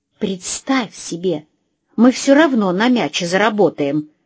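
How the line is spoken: Hissed. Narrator (Russian): зашипела она на Магнуса

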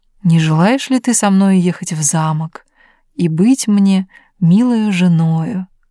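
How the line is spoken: Tender king's voice. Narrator (Russian): король ласково посмотрел на нее, сказал

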